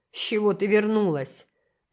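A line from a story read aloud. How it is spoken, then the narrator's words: Surprised growl. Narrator (Russian): прорычал он, но скорее в удивление, чем раздраженно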